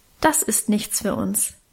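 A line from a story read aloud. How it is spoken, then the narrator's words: Plain. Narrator (German): sagte er wieder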